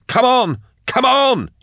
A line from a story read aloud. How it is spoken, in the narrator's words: he yelled